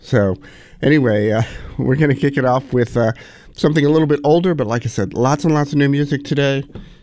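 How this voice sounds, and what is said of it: Deeper, FM-DJ-like sick voice. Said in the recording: “I'm a little under the weather... My voice is a little bit closer to an FM DJ voice today than usual”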